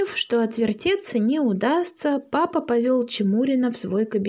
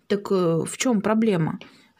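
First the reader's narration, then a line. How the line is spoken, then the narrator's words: Plain. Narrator (Russian): спросил папа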